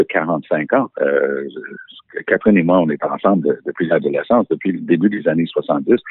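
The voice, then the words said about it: French with a slight English accent. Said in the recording (French): “mon petit accent anglais”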